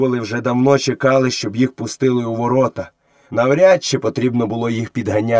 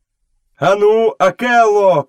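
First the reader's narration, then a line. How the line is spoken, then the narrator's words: Shout. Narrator (Ukrainian): крикнув Мауглі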